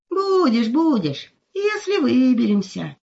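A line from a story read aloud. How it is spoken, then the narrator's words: Sighing. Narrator (Russian): вздохнул волк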